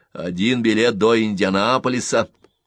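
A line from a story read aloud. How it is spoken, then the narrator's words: Loudly repeated. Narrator (Russian): громко повторил хозяин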